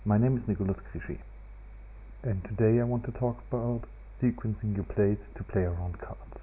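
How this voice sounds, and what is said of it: Accented, fast, hard-to-understand speech. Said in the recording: “I was hard to understand because of my accent and the speed I was talking”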